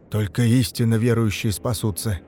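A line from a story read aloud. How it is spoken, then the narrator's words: Muffled, hollow. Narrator (Russian): глухо добавил Мамыкин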